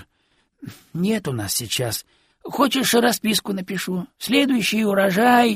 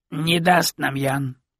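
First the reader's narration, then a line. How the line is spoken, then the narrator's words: Low dull grumble. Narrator (Russian): глухо проворчал староста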